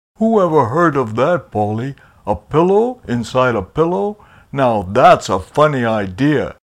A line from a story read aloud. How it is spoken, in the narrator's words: Papa Pillow said with a chuckle